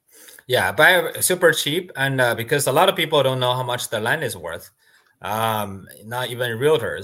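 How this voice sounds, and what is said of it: Speaker's own strange accent. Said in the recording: “I just negotiate very hard using my strange accent.”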